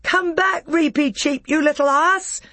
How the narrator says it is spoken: shouted Peter

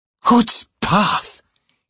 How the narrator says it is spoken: he'd whispered angrily

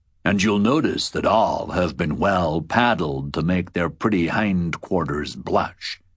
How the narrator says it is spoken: said the captain in a smooth, slow voice, tentative, gauging my reaction

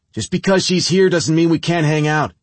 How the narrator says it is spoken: Nikki yell

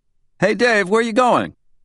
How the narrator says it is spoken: Someone called out

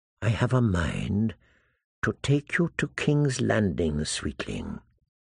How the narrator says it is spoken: whispered

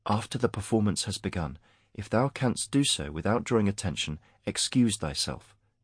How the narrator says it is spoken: said Mara quietly in Harish

